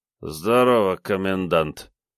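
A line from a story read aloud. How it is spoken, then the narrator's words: Drunken voice. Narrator (Russian): пьяным голосом проговорил Комов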